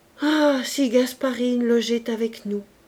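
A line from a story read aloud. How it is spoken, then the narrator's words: Ashamed exclamation. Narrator (French): l'architecte s'écriait, rougissant de scrupules, tourmenté d'une honte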